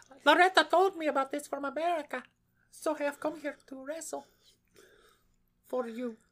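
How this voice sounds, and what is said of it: Put-on Spanish accent. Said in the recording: “she talked with a Spanish accent”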